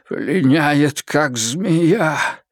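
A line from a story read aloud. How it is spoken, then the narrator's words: Excited exclamation. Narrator (Russian): Взволнованный, он воскликнул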